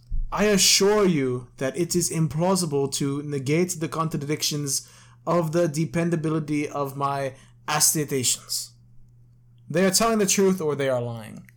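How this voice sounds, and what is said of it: Reads in a put-on accent. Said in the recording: “I read it in a nice accent.”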